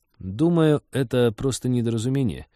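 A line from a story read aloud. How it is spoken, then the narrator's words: Uncertain. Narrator (Russian): неуверенно сказал Вениамин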